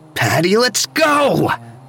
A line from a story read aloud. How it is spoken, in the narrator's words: yelled again